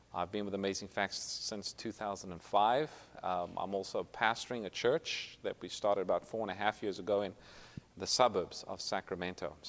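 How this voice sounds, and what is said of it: Slight South African accent. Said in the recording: “Originally, I'm from South Africa, so if you pick up a little bit of an accent, that's what it is.”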